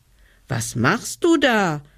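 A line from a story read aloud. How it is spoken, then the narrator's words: Child calling upward. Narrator (German): rief der kleine Hebelmann hinauf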